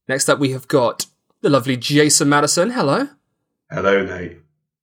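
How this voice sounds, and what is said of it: Overzealous, high-energy podcast host voice. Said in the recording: “I'm doing my overzealous podcast voice, so a normal voice doesn't feel uh, doesn't feel right next to it”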